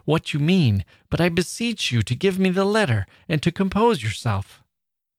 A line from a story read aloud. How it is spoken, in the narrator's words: cried I, half frightened